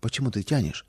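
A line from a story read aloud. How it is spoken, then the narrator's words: Mother's quiet question. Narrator (Russian): Мама тихо спросила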